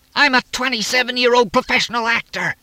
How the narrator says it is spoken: Jerry screamed

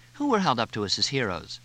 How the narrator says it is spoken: Cindy asked

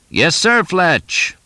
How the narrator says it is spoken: Ted's voice finally boomed into the phone

